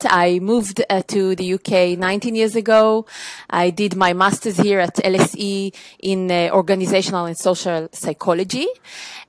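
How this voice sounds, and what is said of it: Israeli accent. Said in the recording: “I was born in Israel, as you can probably detect from my accent.”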